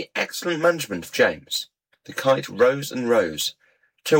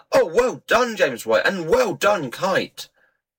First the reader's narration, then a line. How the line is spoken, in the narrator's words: shouting all the time